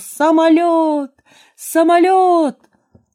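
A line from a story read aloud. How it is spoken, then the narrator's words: Shout. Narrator (Russian): закричал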